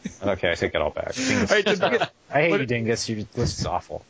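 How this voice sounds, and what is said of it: Usual voice. Nothing is said of it.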